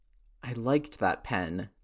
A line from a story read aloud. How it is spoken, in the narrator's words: Tony sighed